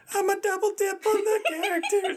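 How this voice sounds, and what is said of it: Strained high-pitched imitation of another's voice. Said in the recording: “That was my impersonation of you... that was terrible... I think I hurt my throat on that... That was pretty bad... I don't know why you went so high”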